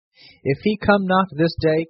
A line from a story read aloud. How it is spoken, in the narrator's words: cried the rich man